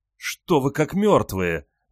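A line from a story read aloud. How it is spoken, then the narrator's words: Exclaiming. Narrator (Russian): воскликнула Альфа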